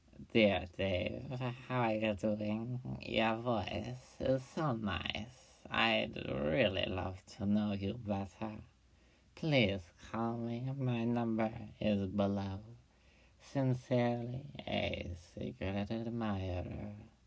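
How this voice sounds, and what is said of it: Put-on accent reading a letter. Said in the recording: “I'll be using a certain accent. I sure hope it doesn't offend any creeps out there.”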